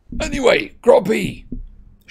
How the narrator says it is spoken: shouted Hagrid, looking up apprehensively

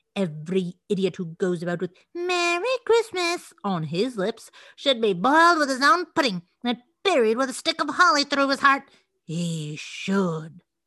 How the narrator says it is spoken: said Scrooge indignantly

